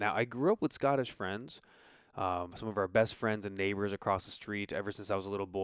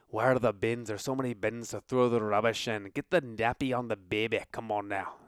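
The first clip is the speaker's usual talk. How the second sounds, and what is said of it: Poor put-on Scottish accent. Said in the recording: “that's such a bad accent ... try the bad accent ... Oh, it's so terrible ... that's not really how they talk”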